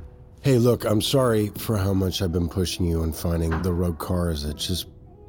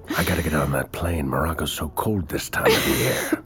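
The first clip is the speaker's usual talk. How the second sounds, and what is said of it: Put-on character voice. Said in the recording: “Please don't do that voice. I can't take you seriously.”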